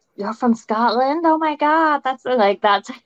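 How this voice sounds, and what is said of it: Bad imitation of American accent. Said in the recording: “That's my bad accent, as you're listening to American.”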